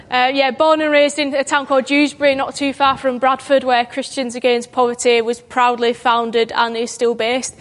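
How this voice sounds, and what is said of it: Broad Yorkshire accent. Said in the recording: “I am from God's own county of Yorkshire... my broad accent”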